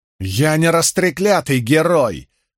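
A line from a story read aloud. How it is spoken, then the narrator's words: Yelling at no one. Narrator (Russian): заорал, никому не обращаясь, Мэтт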